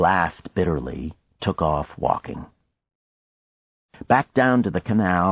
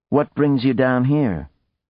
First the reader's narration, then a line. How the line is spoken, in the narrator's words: His tone was amiable, but his eyes were unamused, even cold